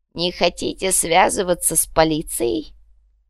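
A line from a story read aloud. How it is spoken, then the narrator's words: Creaky voice. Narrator (Russian): Проскрипевший этот вопрос верба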